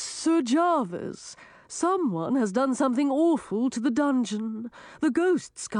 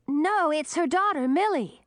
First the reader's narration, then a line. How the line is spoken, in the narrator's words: shouted the young dragoness